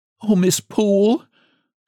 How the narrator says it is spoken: sobbed she

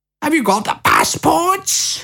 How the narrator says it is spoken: cried Lucy

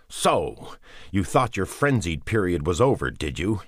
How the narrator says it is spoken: He yelled at himself

